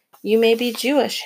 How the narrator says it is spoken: Henrik said,

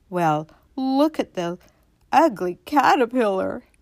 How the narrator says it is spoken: They all cried out

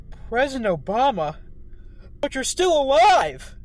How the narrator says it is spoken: He shrieked

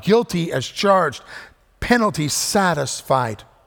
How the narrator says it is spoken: the judge cries out

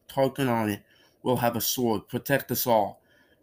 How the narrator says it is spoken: panted Bree

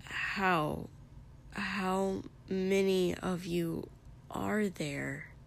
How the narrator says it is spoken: He asked weakly

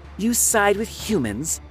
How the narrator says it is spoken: she spat

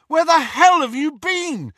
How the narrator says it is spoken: Harry shouted

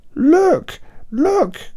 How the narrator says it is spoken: cried

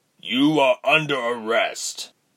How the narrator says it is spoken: he roared

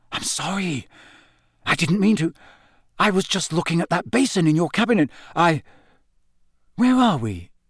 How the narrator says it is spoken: Harry said in a kind of strangled whisper

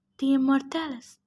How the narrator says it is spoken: Annabeth muttered

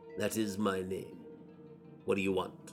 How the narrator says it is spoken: though he did not look the lawyer in the face, he answered coolly enough

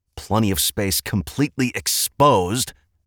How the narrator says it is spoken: Edmund snapped

